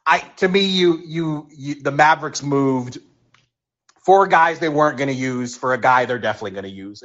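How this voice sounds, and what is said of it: Hoarse, fading voice. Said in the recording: “I'm losing my voice here again.”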